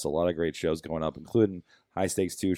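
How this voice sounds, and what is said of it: Weird, low-energy voice. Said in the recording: “I should sound way more excited about, but I can't possibly physically do that right now... my weird voice”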